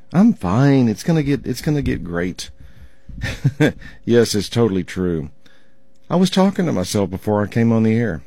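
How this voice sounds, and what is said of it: Rough, strained voice. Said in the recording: “You can tell by my voice, it's just a little bit rough today.”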